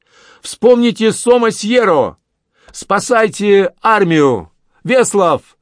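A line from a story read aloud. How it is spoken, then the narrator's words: Loud shout in Polish. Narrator (Russian): громко крикнул по-польски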